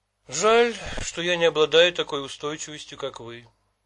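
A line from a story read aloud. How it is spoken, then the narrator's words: Sad. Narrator (Russian): печально говорил он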